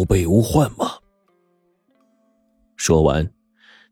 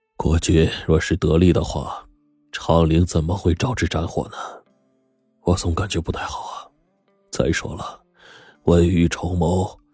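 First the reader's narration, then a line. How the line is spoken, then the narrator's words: Long sigh. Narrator (Chinese): 叶公长叹了一声说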